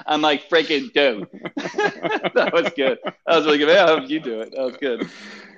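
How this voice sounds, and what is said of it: Harsh Philadelphia accent. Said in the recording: “my harsh Philly accent”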